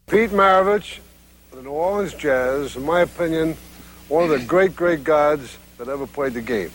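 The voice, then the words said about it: Brooklyn accent. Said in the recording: “I love his Brooklyn accent.”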